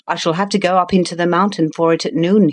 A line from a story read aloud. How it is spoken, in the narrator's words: he said